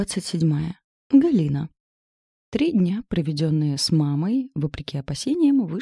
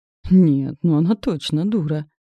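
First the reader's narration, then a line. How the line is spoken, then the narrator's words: Sighing grumble. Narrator (Russian): Вздохнув, проворчала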